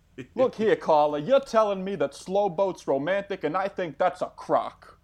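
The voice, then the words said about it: Sports-talk radio host accent. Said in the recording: “Where is this Sports Center accent from, exactly? ... It's not quite Mike Francesa from Mike and the Mad Dog.”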